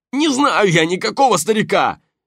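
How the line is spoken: Insincere shouting. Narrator (Russian): неискренне закричал противник

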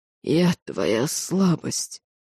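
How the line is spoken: Strained, forced out. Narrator (Russian): с трудом выдавил дроу

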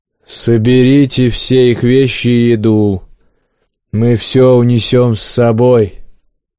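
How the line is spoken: Low booming voice. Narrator (Russian): прогудел

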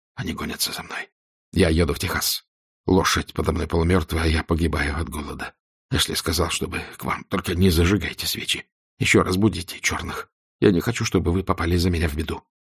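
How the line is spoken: Whispered. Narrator (Russian): услышала, как он прошептал

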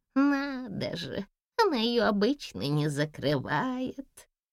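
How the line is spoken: Surprised old woman muttering. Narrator (Russian): Удивленно пробормотала старушка

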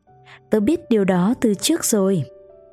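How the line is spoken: Smiling reply. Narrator (Vietnamese): Nó mỉm cười ... trả lời

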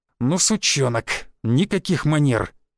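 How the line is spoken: Hiss. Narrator (Russian): прошипел Рыжий

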